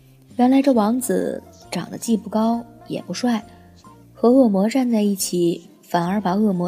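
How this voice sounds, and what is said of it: Usual voice. Nothing is said of it.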